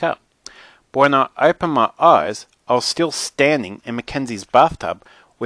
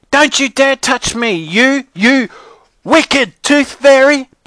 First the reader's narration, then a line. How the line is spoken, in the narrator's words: Brianna screamed at the top of her lungs